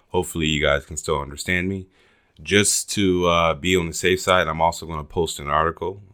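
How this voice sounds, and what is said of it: Slightly raspy, sick-sounding voice. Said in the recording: “I'm still a little bit sick, so if my voice is a little bit raspy”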